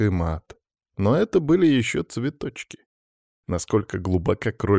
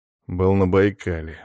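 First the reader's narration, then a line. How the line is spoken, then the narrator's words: Gloomy. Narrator (Russian): мрачно ответил он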